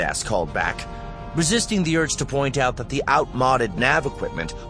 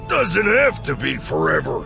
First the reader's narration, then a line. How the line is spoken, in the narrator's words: Kento said with a grunt